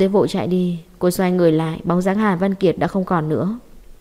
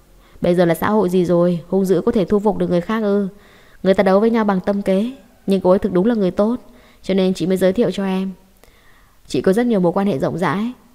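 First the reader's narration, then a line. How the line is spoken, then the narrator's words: Laughing loudly. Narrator (Vietnamese): Quay xương cười to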